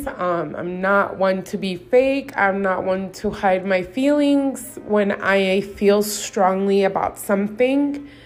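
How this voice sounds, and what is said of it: Emotional voice. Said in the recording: “made me feel very emotional, and you can probably hear it in my voice.”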